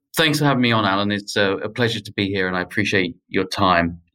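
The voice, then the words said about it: British accent. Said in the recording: “If my accent's not a giveaway already, then I grew up in the UK and I moved to the US about 10 years ago”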